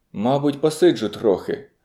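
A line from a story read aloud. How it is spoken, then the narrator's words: Surprisingly calm voice. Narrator (Ukrainian): відказав він напрочуд спокійним голосом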